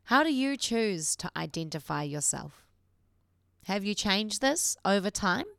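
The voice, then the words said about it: New Zealand accent. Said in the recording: “as you can tell by my accent, a Kiwi”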